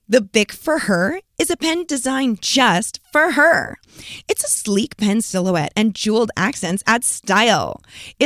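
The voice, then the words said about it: Commercial announcer voice. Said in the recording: “put on my commercial voice”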